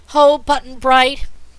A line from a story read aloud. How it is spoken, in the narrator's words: cried the little girl